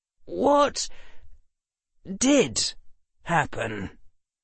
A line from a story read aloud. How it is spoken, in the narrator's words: Professor McGonagall sighed